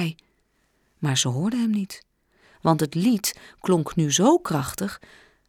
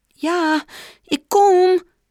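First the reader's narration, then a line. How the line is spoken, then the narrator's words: Called out again. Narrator (Dutch): riep ze weer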